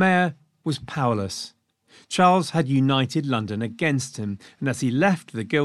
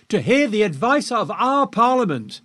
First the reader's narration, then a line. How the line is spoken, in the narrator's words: they shouted back